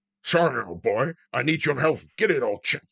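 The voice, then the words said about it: Imitates another person's voice, badly. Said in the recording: “worst Connery impression”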